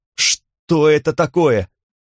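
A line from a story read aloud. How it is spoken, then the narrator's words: Shout. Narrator (Russian): крикнул Ассад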